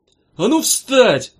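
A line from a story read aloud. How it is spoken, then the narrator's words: Yelling. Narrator (Russian): заорал он на Мефа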